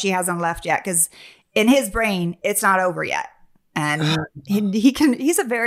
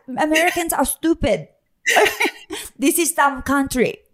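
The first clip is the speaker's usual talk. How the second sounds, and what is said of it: Put-on foreign accent. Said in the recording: “Is that a good accent, right? No, I'm not an actress.”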